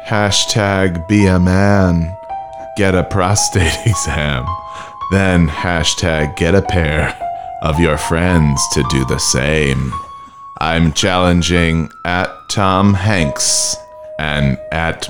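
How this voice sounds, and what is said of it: Edgar Allan Poe style voice. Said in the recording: “read some of Tim Allen's tweets in an Edgar Allan Poe voice”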